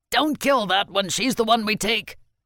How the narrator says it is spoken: The shout came from another soldier

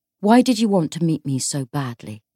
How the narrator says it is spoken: James said, keeping his voice neutral

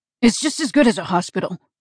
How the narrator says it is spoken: snapped

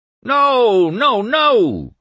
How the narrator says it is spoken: cried Windrip

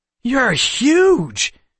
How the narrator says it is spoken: Seth exclaimed in awe

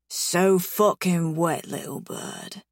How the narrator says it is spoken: he murmurs against my lips

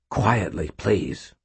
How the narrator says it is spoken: he said in a lower, intent voice

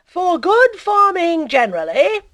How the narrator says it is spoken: cried the president

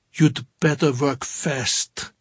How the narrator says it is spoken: De Morenschild said grimly

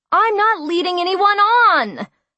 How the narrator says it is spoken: I cried in outrage

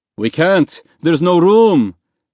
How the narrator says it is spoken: a man inside the dinghy yelled

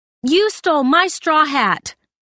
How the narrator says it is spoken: had yelled over her shoulder

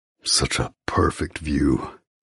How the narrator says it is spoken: growls

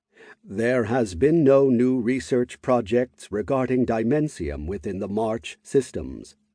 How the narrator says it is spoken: the king said, in an electronic tone

